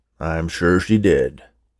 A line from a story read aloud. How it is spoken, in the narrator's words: Oscar agreed gruffly